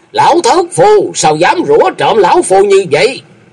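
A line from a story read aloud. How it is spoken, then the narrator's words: Loud speech. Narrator (Vietnamese): có người lớn tiếng nói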